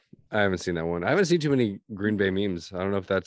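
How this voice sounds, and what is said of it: Hoarse, gravelly voice. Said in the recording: “I lost my voice, so it's gonna be gravelly.”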